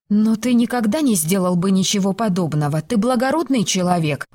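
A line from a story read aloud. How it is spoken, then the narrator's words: Exclaimed. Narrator (Russian): воскликнула она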